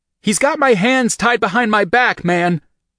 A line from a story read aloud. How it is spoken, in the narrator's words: Will shouted